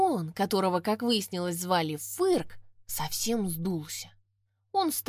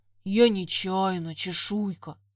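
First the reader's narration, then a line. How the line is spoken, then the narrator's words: Deep grumbling voice. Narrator (Russian): пробурчал он басом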